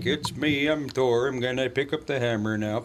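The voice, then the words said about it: Put-on Minnesota accent. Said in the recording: “He should have the Minnesota accent.”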